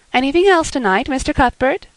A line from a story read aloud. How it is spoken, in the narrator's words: Miss Harris cheerfully inquired